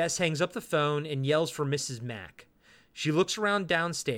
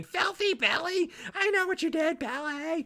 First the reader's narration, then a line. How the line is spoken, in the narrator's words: the caller screams and starts saying